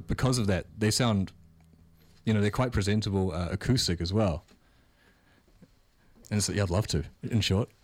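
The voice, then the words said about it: New Zealand accent with American twang. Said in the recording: “you have like an American twang, but also the Kiwi accent comes out ... It's like the internet accent mixed with the New Zealand accent”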